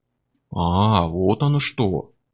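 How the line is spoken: Mock-respectful drawl. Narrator (Russian): притворно уважительно протянул Миллер

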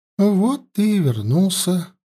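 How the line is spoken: Singsong voice. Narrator (Russian): проговорила Фергуния певучим голосом

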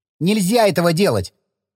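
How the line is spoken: Sharp objection. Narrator (Russian): резко возразил Саня

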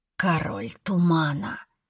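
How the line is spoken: Hiss. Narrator (Russian): прошипела Беллисент

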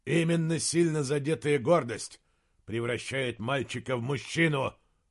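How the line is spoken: Growl. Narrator (Russian): прорычал герцог

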